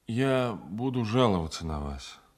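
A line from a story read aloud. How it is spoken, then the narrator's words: Said wearily. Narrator (Russian): наконец устало проговорил я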